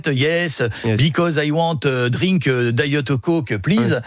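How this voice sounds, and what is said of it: English with a French accent. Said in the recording (French): “l'accent français ... les profs d'anglais vous diront non, il vaut mieux changer parce que ça, c'est moche”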